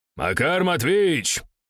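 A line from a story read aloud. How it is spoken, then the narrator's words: Shouted. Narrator (Russian): крикнул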